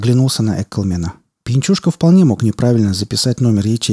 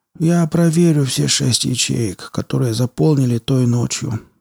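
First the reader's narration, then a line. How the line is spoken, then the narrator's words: Manager's mutter. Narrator (Russian): пробормотал заведующий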